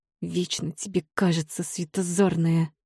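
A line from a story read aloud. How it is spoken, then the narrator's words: Vicious hiss. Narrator (Russian): злобно зашипела гадина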